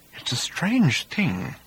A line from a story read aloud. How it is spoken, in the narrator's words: said Arthur quietly